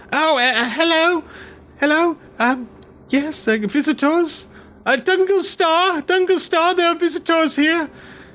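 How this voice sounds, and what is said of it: Young elf boy character voice. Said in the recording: “a little young elf boy moves around the corner and says,”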